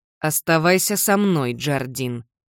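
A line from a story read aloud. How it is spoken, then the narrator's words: Steely voice. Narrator (Russian): стальным голосом говорит Уилсон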